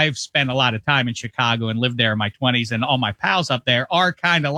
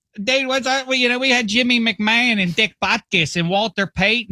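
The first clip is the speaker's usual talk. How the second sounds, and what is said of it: Put-on Pittsburgh accent. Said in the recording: “I'm doing a Pittsburgh accent because I can't do a Chicago one ... This is Pittsburgh doing a Chicago guy”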